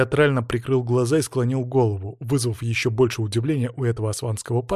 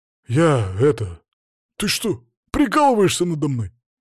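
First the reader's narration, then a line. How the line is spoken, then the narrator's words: Forced out with difficulty. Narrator (Russian): выдавил он наконец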